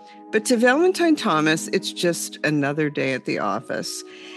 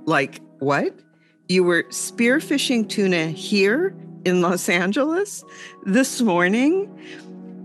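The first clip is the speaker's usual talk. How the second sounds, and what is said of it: Incredulous tone. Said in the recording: “hear the incredulity in my voice?”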